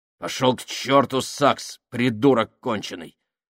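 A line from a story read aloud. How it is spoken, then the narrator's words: Confused snapping. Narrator (Russian): огрызнулся Фабрини, сбитый с толку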